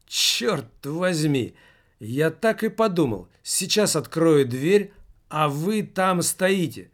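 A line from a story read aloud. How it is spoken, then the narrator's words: Exclaiming. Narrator (Russian): воскликнул директор фирмы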